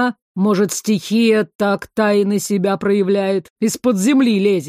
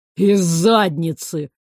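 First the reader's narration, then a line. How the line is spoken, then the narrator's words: Gloomy blurt, upset foreman. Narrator (Russian): мрачно брякнул мастер, расстроенный не меньше директора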